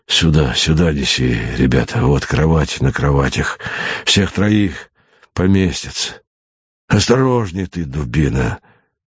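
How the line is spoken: Hissing. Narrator (Russian): Зашипел он на солдата

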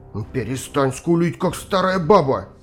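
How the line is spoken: Snapped. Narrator (Russian): огрызнулся Люц

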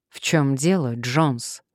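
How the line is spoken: Dry inquiry. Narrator (Russian): сухо осведомился достопочтенный

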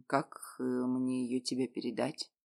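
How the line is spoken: Quiet question. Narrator (Russian): тихо спросил Ренат

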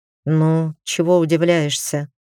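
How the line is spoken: Tired tone. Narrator (Russian): усталым тоном сказал вдруг Лиран Ларинен

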